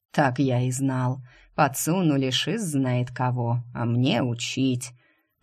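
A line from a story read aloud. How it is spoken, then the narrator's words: Grumbling. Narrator (Russian): проворчал он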